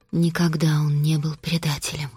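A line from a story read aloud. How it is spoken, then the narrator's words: Quiet, flat. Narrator (Russian): тихо и бесцветно проговорила Костелла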